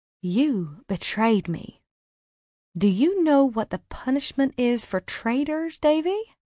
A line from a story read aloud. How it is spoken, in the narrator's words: she said coolly